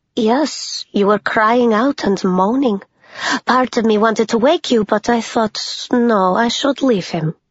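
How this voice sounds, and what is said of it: Soft Eastern European accent. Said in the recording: “She had a soft Eastern European accent.”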